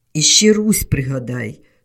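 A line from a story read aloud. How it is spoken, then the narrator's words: Angry. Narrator (Ukrainian): сердито сказала Вітка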